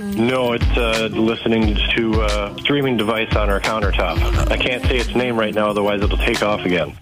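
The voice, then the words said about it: Congested, stuffed-up voice. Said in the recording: “you sound a little sick. ... I am a little stuffed up”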